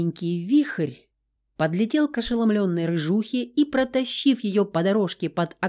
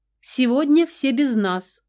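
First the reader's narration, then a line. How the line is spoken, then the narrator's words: Hurried shout, woman. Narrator (Russian): успела крикнуть хозяйка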